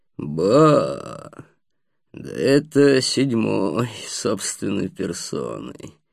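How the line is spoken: Resonant throaty voice. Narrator (Russian): Тем же звучным голосом с горловым оттенком продолжал незнакомец

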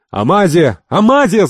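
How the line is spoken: Shouting. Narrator (Russian): закричал Ахмед

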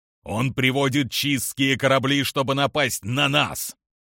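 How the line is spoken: Growl. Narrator (Russian): прорычал генерал

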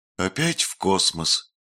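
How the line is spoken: Sigh. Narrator (Russian): вздохнула Карни

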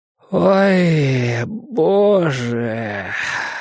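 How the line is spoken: Groaned. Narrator (Russian): простонал Борис

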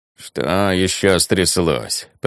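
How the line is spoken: Grumbling. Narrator (Russian): проворчала Лавиане

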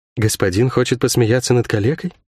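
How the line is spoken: Quiet question. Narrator (Russian): тихо спросила гостья

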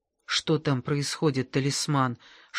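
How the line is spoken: Whisper. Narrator (Russian): шепнул Масклин

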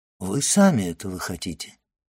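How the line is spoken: Calm. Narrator (Russian): спокойно отвечал аббат

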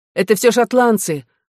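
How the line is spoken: Exclaimed. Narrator (Russian): воскликнул Эдуард

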